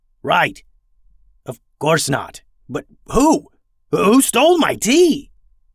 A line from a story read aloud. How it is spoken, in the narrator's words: Fivetails roared in anger